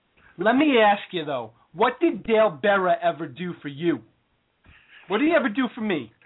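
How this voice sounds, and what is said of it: Entitled bro character voice. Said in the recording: “his bro and entitlement impression. It's really coming along.”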